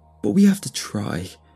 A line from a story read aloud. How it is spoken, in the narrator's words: cried